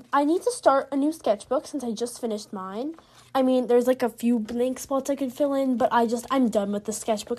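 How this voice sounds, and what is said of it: Slightly scratchy, weird-sounding voice. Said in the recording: “my voice might sound a little bit weird cuz I um had uh ... strep throat ... my voice has been kind of um, scratchy because I had strep throat. I'm better now”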